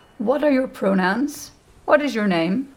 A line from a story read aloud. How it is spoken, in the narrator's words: asks calmly